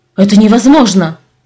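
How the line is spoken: Sharp objection. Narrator (Russian): резко возразил Ляк

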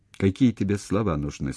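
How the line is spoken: Plain. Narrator (Russian): спросил

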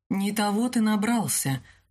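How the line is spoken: Gloomy remark. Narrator (Russian): мрачно заметила Каролина

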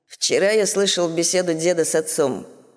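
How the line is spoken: Muffled hollow voice. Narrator (Russian): глухим голосом говорит Терри

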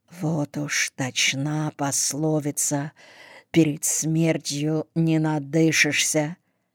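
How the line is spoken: Barely audible aside. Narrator (Russian): кто-то, еле слышно, чтоб не услышал умирающий, сказал

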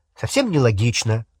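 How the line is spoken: Snapping retort. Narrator (Russian): огрызнулась Гермиона

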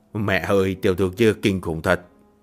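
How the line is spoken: Muttered. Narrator (Vietnamese): Chủ tử lẩm bẩm

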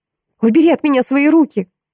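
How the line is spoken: Yelling. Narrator (Russian): заорала

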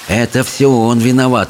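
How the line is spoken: Hissing under breath. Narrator (Russian): зашипела про себя Чармайн

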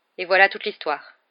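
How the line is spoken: Grave tone. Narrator (French): dit Fudge d'un ton grave

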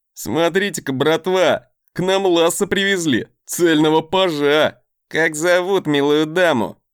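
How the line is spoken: Mocking laugh. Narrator (Russian): Глумливо хохотнул кто-то из ближней к входу камеры

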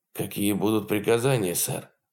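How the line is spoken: Hoarse question, first mate. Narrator (Russian): хрипло спросил старпом

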